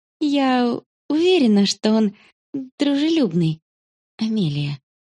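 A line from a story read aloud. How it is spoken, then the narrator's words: Gentle mother. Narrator (Russian): ласково проговорила мама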